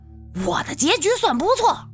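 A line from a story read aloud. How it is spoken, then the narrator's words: Sudden loud anger. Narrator (Chinese): 周炳坤忽然大声怒道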